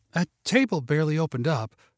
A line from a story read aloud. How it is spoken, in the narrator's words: the hostess said breathlessly